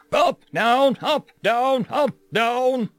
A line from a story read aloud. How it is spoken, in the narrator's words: our drill instructor shouted